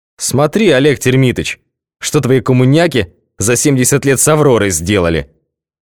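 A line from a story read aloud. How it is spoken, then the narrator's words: Loud. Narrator (Russian): сказал громко джедай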